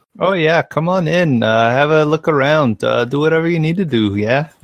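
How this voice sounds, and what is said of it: Bad put-on Canadian accent. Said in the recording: “That's like the worst Canadian accent I've ever heard. ... You're asking a guy from like Alabama to do a Canadian accent.”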